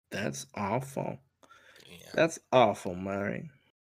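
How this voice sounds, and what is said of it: Joker character voice impression. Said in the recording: “doing a Joker impression.”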